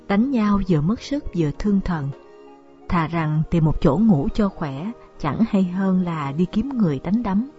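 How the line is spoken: Weary sighing speech. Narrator (Vietnamese): Lục Tiểu Phụng uể oải thở dài nói

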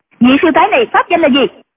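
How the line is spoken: Shouting. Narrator (Vietnamese): hoàng y mỹ nữ quát lên

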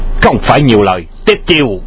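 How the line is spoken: Sharp shout. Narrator (Vietnamese): Tiếp theo tiếng quát

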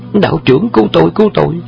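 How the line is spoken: Screaming cry. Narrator (Vietnamese): Khúc Thắng thét kêu lên

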